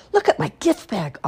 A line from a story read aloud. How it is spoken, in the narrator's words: Oliver said excitedly